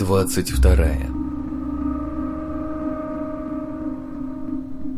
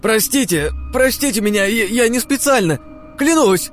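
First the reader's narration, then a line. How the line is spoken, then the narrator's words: Shouting. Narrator (Russian): кричал он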